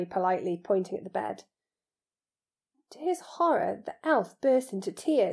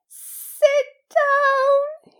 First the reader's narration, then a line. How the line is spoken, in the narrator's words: he wailed